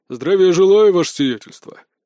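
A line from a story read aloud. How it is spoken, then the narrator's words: Deep booming voice. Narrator (Russian): прогудел здоровяк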